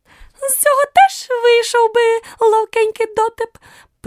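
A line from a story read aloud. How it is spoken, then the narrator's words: Squeaky tiny voice. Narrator (Ukrainian): пропищав тонісінький голосочок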